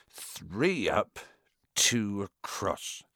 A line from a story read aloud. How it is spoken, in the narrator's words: he muttered